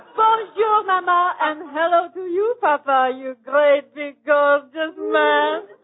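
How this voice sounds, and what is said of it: Put-on French accent. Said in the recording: “French accent”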